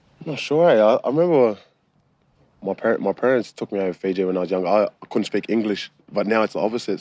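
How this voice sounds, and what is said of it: Australian accent. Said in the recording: “you've got an Australian accent.”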